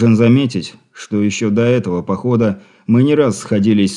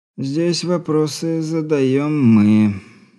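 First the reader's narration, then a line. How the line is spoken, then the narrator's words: Lazy, creaky drawl. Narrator (Russian): с показной линцой проскрипел председатель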